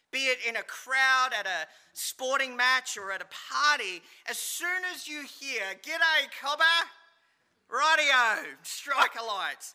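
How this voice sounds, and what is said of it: Australian accent. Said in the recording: “you could pick an Aussie accent with just a couple of words of them speaking ... I never heard the Aussie accent”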